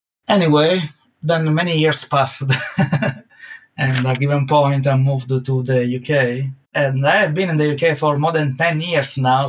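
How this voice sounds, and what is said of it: Italian accent. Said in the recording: “I never lost to my Italian accent.”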